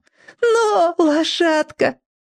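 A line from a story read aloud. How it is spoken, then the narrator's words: Shouted. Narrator (Russian): кричала ему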